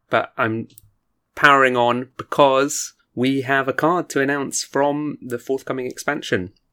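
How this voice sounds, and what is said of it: Hoarse voice, sore throat. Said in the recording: “you might hear that I'm a bit hoarse. ... I've just got a, a sore throat”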